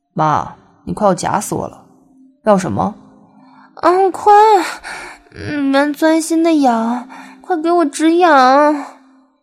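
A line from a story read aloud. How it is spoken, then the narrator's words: Laughing. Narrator (Chinese): 朝她笑道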